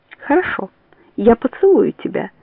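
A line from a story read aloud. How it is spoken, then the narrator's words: Calm. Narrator (Russian): спокойно говорит она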